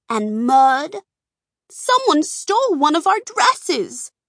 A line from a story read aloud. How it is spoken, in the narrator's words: the women cried in unison